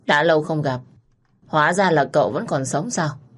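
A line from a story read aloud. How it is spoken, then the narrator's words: Mocking sneer. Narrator (Vietnamese): Cô cười khẩy, giọng nói giễu cợt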